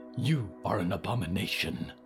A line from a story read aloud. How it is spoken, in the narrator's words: hissed